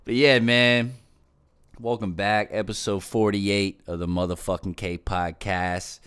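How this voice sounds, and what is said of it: Raspy voice. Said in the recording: “So you can hear the texture of my voice. You understand? Listen to the raspy. So raspy.”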